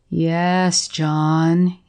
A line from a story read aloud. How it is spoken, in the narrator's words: he was saying in his drawling, self-congratulating voice